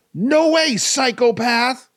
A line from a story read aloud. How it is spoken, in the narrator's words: Davy screamed